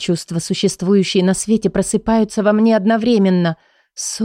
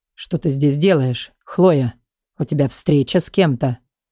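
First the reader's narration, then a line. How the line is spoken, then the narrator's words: Low menacing rasp. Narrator (Russian): Почти прохрипел низким, пугающим голосом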